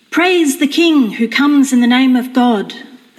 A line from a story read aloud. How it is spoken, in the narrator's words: shouted